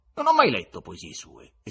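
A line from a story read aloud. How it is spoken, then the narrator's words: Irritated exclamation. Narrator (Italian): esclamò innervosito il visitatore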